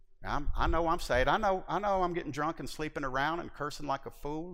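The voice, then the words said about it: Put-on Southern hillbilly accent. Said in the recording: “Bunch of hillbilly talk ... usually it was in that accent ... I am from the South”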